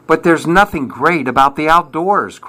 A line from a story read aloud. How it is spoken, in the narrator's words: cried Bob